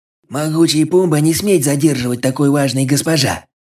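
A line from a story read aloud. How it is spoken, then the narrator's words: Nasal reply. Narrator (Russian): гнусаво ответил тот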